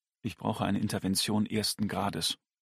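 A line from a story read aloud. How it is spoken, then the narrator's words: Quiet demand. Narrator (German): verlangte er leise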